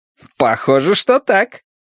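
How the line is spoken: Cheerful. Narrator (Russian): весело ответил Янь

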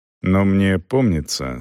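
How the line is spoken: Calm objection. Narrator (Russian): спокойно возразил Селдон

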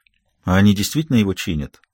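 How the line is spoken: Quiet young woman. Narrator (Russian): Девушка тихо произнесла

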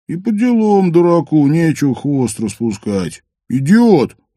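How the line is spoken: Loud groan. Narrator (Russian): громко простонал Каско, адресуя этот возглас всем и никому конкретно

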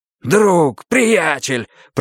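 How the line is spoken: Shouted. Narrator (Russian): прокричал я

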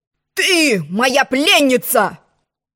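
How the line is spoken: Shouted. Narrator (Russian): закричал он

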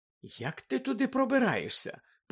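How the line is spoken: Innocent curious tone. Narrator (Ukrainian): поцікавилася Герміона абсолютно безневинним тоном

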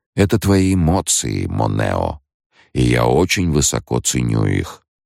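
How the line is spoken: Soft gentle speech. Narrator (Russian): мягко проговорил Лето

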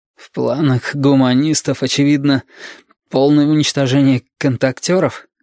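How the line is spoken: Hoarse question. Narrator (Russian): сипло спросил Валентин

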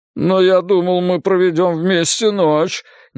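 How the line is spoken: Involuntary moan. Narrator (Russian): невольно простонал я

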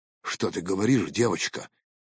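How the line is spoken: Whisper. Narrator (Russian): прошептал я

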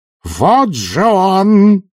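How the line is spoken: Triumphant yell. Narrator (Russian): завопила она с торжеством в голосе

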